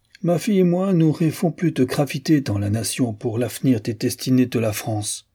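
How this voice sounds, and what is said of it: Guttural accent. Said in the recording (French): “de son accent guttural”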